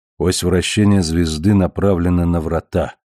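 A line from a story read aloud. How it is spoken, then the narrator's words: Soft prompting. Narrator (Russian): мягко подсказал он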